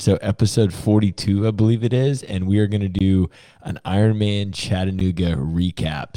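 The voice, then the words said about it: Scratchy voice. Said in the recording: “my voice sounds a little scratchy”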